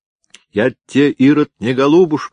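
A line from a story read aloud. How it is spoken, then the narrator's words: Shouting even louder. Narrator (Russian): еще громче закричала Матвеевна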